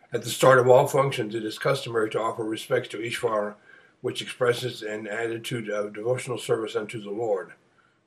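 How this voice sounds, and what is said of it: Strained, failing voice. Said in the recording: “my voice is failing this morning”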